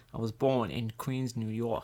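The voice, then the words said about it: Poor put-on New York accent. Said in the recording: “that is the worst accent I've ever heard”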